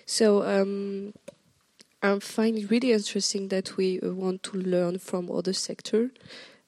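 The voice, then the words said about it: French-accented English. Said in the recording (French): “If my accent is too horrible, just tell me. I will switch back to French.”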